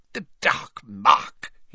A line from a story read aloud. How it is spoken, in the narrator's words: he muttered